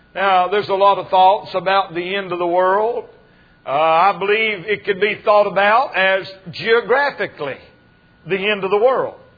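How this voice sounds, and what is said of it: North Carolina accent. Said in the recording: “I'm a Western North Carolina boy. ... accent from North Carolina”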